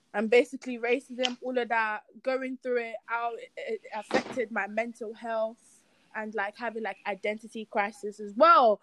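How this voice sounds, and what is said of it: Nigerian accent. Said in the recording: “I am from Nigeria. Can you not tell me my accent? I'm from Nigeria, man.”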